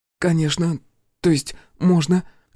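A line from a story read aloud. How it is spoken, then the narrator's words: Confused. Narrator (Russian): Растерянно подхватила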